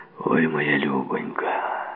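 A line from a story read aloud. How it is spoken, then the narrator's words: Muttering. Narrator (Ukrainian): пробурмотів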